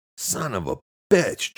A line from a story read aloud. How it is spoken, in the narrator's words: Jack shouted